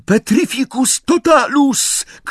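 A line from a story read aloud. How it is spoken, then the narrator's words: Shout from hiding. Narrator (Polish): krzyknęła z ukrycia Hermiona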